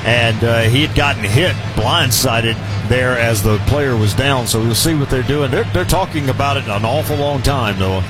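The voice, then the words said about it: Southern American accent. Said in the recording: “my southern accent ... you'll never lose that”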